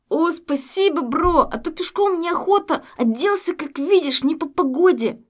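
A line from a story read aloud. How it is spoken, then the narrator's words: Laughing. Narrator (Russian): Смеялся пассажир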